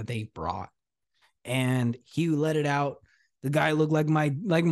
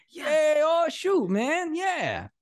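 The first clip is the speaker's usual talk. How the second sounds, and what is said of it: Imitates a Cajun man's voice. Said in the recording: “like this Cajun guy”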